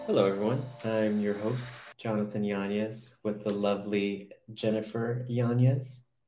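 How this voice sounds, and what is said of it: Smooth late-night radio DJ voice. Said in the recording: “You sound like you're using your nighttime DJ voice on me... Like a radio DJ?... super smooth jazz”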